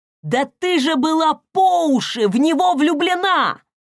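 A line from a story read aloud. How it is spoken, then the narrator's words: Shouting. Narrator (Russian): прокричал он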